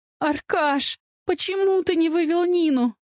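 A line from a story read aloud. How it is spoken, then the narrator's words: Sobbing. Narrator (Russian): Всхлипываю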